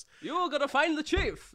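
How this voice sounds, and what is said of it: 1940s transatlantic accent, the Chief. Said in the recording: “It just turns into 1940s... You just go to the 1940s transatlantic accent.”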